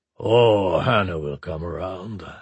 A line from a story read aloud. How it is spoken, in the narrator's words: Antonov rumbled